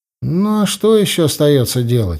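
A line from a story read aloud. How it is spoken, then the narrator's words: Sighing. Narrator (Russian): вздохнул я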